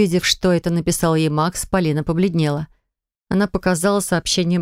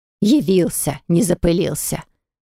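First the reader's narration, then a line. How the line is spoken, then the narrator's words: Venomous hiss. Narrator (Russian): ядовито прошипела бабушка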